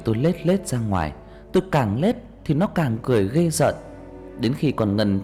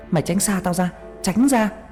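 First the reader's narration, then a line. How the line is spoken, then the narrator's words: Screaming. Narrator (Vietnamese): tôi hét lên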